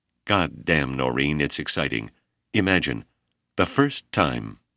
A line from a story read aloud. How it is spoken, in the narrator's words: cried